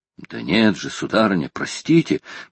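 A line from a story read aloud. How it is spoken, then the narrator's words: Old man muttering. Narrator (Russian): пробормотал старый моряк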